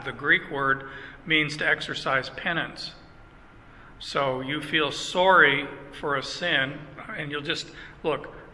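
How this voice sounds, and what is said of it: Canadian accent. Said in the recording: “I'm sorry about the Canadian accent. You will not get rid of the Canadian accent on words like sorry.”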